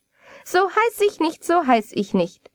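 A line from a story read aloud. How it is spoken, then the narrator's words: Little man laughing. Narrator (German): lachte das Männchen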